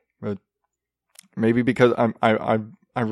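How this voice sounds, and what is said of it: Usual voice. Nothing is said of it.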